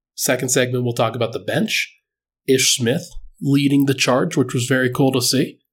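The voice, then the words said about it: Slightly congested voice. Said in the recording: “hear it in my voice. ... I'm a little bit better. Still a little congested”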